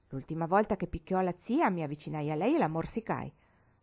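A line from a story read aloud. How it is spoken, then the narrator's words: Boy, cold reply. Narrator (Italian): rispose il ragazzo freddamente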